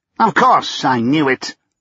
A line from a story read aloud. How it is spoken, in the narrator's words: he snapped